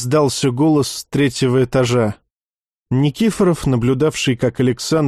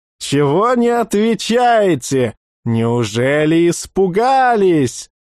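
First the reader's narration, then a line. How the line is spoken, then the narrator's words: Shouting, loud guffaw. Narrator (Russian): Кричавший громко загоготал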